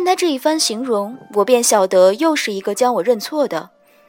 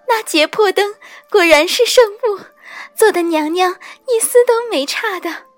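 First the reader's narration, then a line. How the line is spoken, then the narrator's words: Crying and laughing. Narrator (Chinese): 边哭边笑 道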